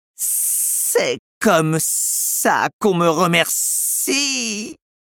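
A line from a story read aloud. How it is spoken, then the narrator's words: Moaning. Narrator (French): gémit Kaa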